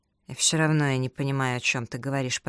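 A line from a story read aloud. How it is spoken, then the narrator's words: Grumbled. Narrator (Russian): проворчал он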